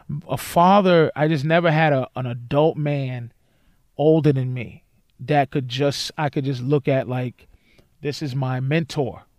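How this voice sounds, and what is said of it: Emotional, choked-up voice. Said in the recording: “I started getting emotional. I'm getting emotional now”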